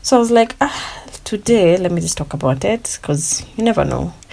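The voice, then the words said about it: Weak, fading voice. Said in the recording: “my voice is disappearing”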